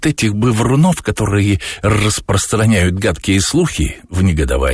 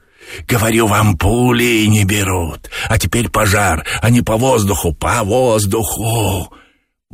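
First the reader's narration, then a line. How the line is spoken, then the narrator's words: Hissing. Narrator (Russian): Боба шипел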